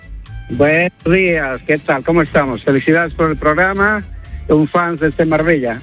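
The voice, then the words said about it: Accent that sounds Galician. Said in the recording (Spanish): “con ese acento, digo yo, me nos llama del norte... parecía gallego”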